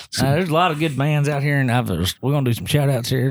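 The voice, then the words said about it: Southern Kentucky drawl. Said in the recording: “you're too Southern, you got too too southern draw or too Kentucky or that bad accent.”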